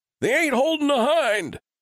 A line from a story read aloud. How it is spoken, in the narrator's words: Vail yelled